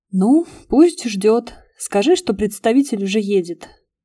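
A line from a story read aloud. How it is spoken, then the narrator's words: Sighing. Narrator (Russian): вздохнула я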